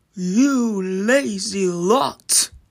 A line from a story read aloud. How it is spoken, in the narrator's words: roared the giant